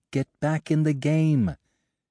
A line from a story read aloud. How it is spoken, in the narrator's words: a little voice inside her to scream